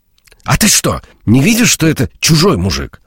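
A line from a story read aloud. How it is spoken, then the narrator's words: Angry shout. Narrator (Russian): Зло крикнула Анастасия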